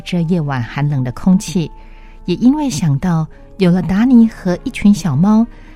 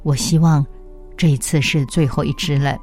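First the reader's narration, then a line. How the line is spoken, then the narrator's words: Grandmother murmuring. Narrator (Chinese): 奶奶喃喃地说道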